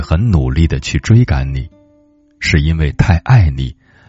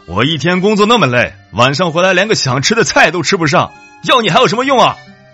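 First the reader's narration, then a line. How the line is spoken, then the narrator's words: Exasperated outburst. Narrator (Chinese): 平时很少大声讲话的闺蜜，这一次也不忍了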